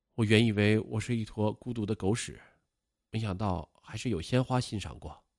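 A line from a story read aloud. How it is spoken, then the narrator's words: Sighing exclamation. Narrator (Chinese): 儿子终于感叹说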